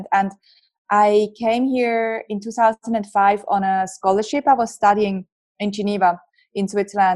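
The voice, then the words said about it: Strong Swiss accent. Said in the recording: “I have a very strong accent... still have a very Swiss accent”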